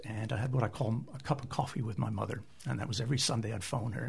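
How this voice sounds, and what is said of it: Canadian accent. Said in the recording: “You can tell by my accent, I'm not from here. I'm originally Canadian”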